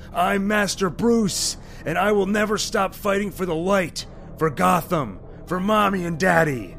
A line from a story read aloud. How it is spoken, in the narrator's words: He yells